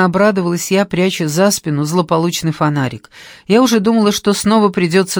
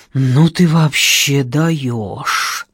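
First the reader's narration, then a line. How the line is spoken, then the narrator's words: Breathless, hurt yet admiring. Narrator (Russian): выдохнул Гера со сложной смесью обиды и восхищения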